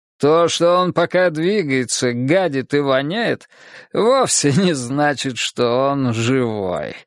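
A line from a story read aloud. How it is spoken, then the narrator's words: Laughing. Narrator (Russian): рассмеялся Елисеев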